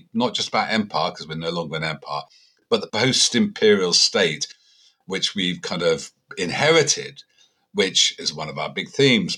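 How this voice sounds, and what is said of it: Very English accent. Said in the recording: “this very English accent I've got”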